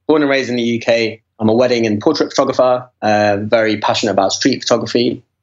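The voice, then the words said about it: British London accent. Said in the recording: “You've got a killer accent”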